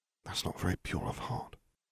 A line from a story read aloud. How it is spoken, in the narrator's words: Harry whispered